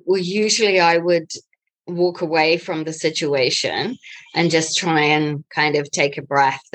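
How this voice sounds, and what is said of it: New Zealand accent. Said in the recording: “Nice New Zealand accent there.”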